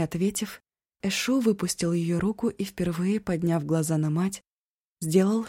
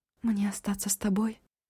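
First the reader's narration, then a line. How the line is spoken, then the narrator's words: Whispered through pain. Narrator (Russian): стараясь не морщиться от боли, спросила шепотом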